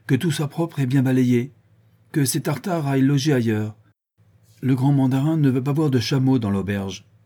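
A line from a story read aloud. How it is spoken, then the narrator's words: Curt, haughty exclamation. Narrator (French): s'écria-t-il d'un ton bref et plein de morgue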